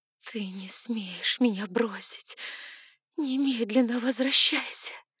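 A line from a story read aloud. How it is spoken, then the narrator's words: Hoarse whisper, pleading. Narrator (Russian): взывала я хриплым шепотом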